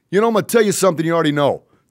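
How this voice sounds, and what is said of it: Imitation of Rocky's accent. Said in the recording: “I've been working on my Rocky accent. It's not where it needs to be, but it's getting close.”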